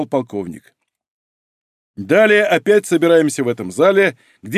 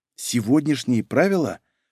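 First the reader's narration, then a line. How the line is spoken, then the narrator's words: Whispered question. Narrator (Russian): шепотом переспросил я у Анны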